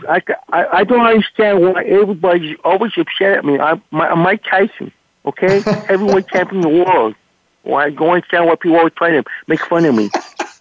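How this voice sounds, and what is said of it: Mike Tyson impression. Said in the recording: “You can do Mike Tyson? Do Mike Tyson. Please do Mike Tyson.”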